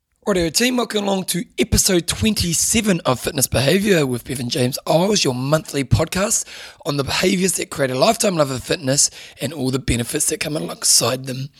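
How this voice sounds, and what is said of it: Strained, hoarse voice. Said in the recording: “I'm losing my voice right now ... I'm straining my voice today”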